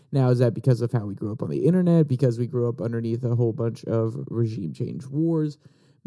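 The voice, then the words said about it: Raspy, deeper than normal voice. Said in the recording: “my voice is a little raspy. ... It's a little bit deeper than normal. May have something going on with the throat”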